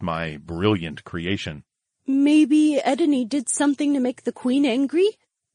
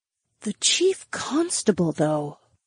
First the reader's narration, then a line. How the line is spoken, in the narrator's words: Daisy whispered